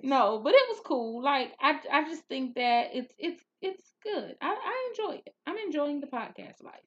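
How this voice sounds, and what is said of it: Southern twang accent. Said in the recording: “you got that southern twang that I like”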